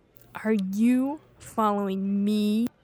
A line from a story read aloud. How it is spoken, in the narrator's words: snarled